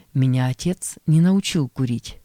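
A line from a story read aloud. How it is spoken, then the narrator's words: Plain. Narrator (Russian): сказал я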